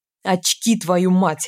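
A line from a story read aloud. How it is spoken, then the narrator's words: Barking. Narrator (Russian): рявкнул Григ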